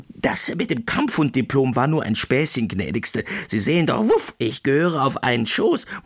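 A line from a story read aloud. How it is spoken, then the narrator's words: Squeaked. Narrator (German): piepste Putzi Putzi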